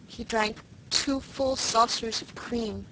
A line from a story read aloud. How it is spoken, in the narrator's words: moaned Felicity